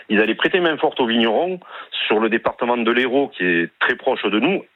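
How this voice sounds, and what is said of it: Slight southwestern French accent. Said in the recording (French): “vous avez un léger accent ... c'est l'accent du sud-ouest”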